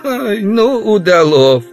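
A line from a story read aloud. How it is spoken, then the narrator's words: Woman laughing. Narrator (Russian): рассмеялась женщина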